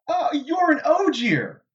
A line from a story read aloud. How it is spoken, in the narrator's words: Rand exclaimed